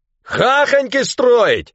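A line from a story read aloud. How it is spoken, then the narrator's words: Yelling. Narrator (Russian): Орал Ванька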